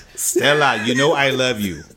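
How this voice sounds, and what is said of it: Poorly done put-on African accent. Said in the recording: “I don't even know what country in Africa that accent was from... I'm bad at accents. I'm bad at accents.”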